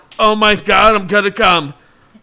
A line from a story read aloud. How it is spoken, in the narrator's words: Phil yelled